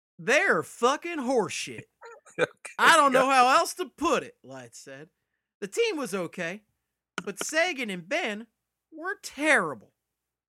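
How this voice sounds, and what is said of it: Put-on Texas accent. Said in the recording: “Can you read this with a Texas accent?”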